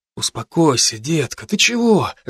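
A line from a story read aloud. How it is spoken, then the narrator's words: Soothing mumble. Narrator (Russian): забормотал Саблин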